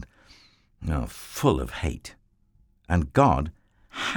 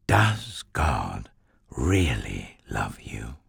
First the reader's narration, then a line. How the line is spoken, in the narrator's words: the serpent whispered